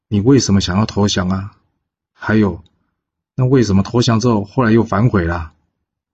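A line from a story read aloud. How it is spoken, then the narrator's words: Plain. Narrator (Chinese): 胡生则是回答道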